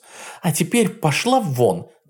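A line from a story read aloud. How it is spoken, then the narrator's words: Shouting. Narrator (Russian): закричала Ванда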